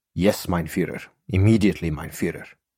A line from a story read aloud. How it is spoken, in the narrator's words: Cowed and afraid obediently muttered